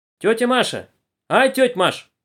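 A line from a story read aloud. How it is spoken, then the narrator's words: Girl shouting. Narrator (Russian): крикнула одна из девушек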